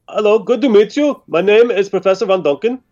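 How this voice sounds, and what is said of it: Shaky put-on German accent. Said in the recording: “I need to get German. Gotta get German. ... pretend this is actually in a German accent and not something I'm making up ... Now he's Swedish.”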